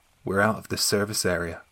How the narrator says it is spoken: she replied very calmly

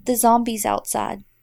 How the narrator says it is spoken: without pause, she whispers

